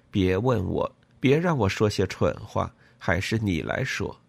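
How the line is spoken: Mumbling. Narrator (Chinese): 他嘟囔着说

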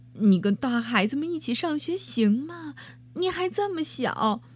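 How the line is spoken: Mumbling mother. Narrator (Chinese): 妈妈在后头嘟囔着

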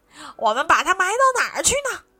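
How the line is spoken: Loud clamoring shout. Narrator (Chinese): 小辫胡子爷哇哇嚷道

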